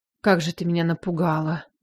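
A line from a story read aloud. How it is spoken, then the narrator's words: Relieved exhale. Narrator (Russian): выдохнул он с облегчением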